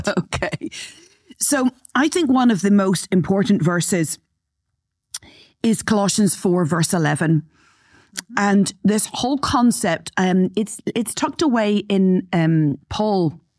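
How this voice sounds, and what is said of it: Slightly hoarse, throat-clearing voice. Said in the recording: “I've got a little bit of a frog in my throat, so if you hear that, me clear my throat”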